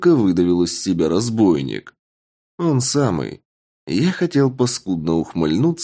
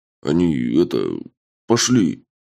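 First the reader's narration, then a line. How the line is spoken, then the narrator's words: Mumbling. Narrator (Russian): промямлил сапог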